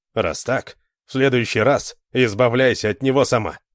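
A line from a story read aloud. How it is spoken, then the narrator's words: Angry. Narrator (Russian): зло сказал он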